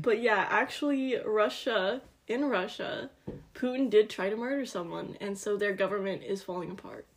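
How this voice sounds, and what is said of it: Put-on Russian accent. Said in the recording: “that's why I have a Russian accent”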